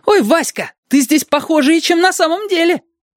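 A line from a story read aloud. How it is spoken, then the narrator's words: Delighted crowd yelling. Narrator (Russian): зрители восторженно вопили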